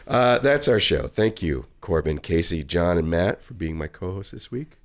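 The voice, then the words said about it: Strained, worn-out voice. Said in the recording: “my voice is just about ready to crap out”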